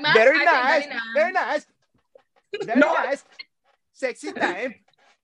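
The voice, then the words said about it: Borat impression accent. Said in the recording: “you kept doing the Borat accent... Do you do the Borat accent when you're drunk?”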